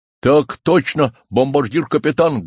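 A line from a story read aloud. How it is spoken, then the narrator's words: Soldiers barking in unison. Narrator (Russian): гаркнули в ответ солдаты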